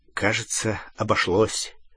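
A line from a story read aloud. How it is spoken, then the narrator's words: Muttered. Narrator (Russian): пробормотал Гарри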